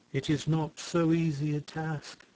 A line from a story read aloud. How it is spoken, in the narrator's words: she answered, sighing